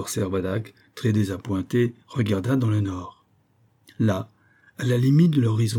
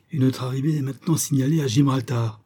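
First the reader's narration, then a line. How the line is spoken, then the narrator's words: Exclaimed. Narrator (French): s'écria le capitaine Servadac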